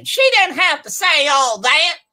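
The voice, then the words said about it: Imitates a young Black woman's voice. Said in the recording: “do a black girl impersonation ... I don't think I can do a black girl impression, but I tried”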